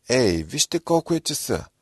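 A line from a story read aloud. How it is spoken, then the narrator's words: Sudden exclamation. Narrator (Bulgarian): Внезапно Руби възкликнал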